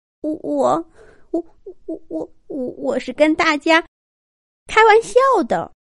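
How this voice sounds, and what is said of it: Quiet, stammering voice. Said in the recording (Chinese): “结结巴巴的 ... 小声说了一句”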